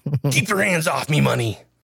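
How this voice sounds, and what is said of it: Mr. Krabs impression. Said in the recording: “No, you're not Santa. You're Mr. Krabs.”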